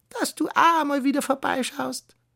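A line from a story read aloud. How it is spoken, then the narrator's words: Croaking female voice. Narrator (German): krächzte sie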